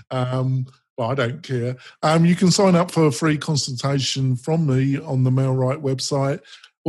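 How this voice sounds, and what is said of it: English accent. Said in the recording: “your English dulcet tones ... my English accent”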